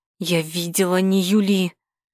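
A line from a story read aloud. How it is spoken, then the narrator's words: Hissing. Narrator (Russian): зашипела я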